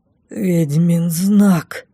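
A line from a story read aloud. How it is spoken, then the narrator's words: Dazed, trembling mutter. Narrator (Russian): дрогнувшим голосом пробормотал Лей в прострации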